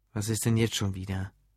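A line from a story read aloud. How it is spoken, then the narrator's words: Dull muffled voice. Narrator (German): fragte mit dumpfer Stimme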